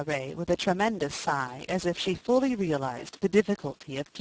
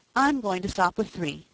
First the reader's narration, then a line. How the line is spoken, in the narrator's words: said Peter